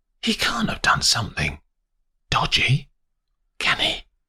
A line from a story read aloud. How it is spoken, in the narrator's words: whispers